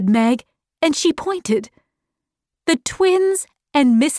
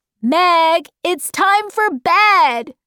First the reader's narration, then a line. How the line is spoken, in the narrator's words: shouted Dennis